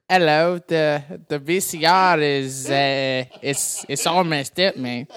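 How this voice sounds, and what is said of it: Put-on British accent. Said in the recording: “great British impression ... you sound like my dad ... accents are not my forte”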